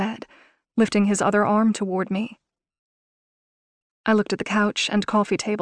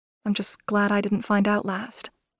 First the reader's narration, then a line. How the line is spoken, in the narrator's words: I said quietly